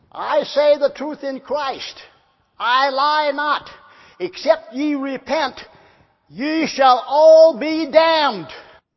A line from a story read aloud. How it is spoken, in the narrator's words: he yelled out, trying to imitate Whitefield, and real loud, he said